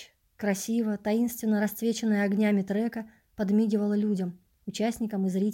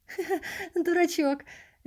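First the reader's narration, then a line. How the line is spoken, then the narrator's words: Merry laughter. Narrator (Russian): весело рассмеялся Эд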